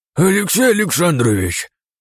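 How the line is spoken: Breathless heavy exhale. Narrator (Russian): тяжело выдохнул влетевший в кабинет Василий Ионович Решетов

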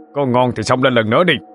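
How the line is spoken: Shout. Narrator (Vietnamese): Độ Sẹo quát lên

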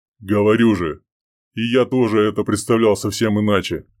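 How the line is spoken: Wry grunt. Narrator (Russian): хмыкнул Чеботурин

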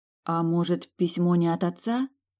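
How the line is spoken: Unsure suggestion. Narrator (Russian): неуверенно предположила

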